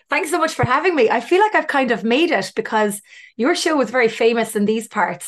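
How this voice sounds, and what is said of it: Irish accent. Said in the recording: “love the Irish accent.”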